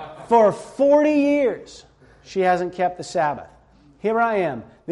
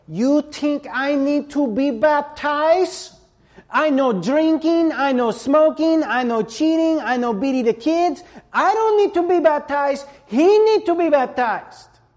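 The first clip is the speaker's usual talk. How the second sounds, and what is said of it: Put-on Hispanic accent. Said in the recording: “do my best Hispanic accent imitation.”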